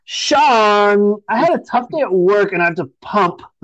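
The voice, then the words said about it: Impression of a woman's voice. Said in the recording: “your Mary accent ... Mary impersonation”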